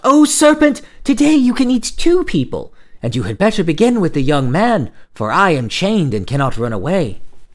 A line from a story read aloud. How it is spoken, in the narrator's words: she cried out